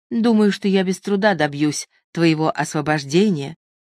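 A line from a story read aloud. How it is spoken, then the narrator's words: Plain. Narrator (Russian): сказала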